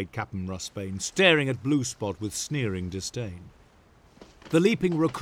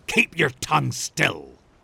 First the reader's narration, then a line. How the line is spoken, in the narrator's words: snapped Rossbane